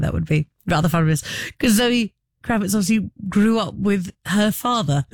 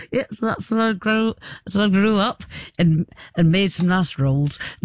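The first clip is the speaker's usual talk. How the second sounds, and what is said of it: Weak put-on Northern English accent. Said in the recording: “Don't talk to me about my Northern accent. I know it's not very good”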